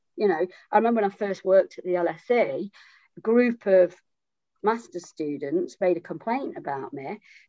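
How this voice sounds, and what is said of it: Strong accent. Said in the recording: “I've got a strong accent that's often used against me ... they said they couldn't understand my accent”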